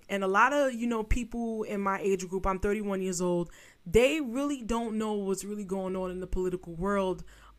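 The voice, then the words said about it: New York street accent. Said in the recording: “If you can hear it in my voice. I'm from the hood of New York.”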